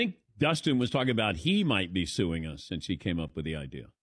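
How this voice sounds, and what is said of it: Usual voice. Nothing is said of it.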